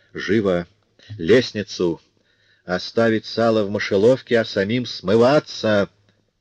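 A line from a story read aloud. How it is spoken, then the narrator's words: Muffled commanding voice. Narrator (Russian): глухим голосом отдал распоряжение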